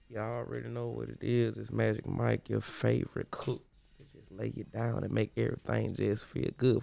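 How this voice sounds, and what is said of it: Put-on sexy voice. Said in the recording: “Man, you already got your sexy voice. ... did a whole set with the sexy voice.”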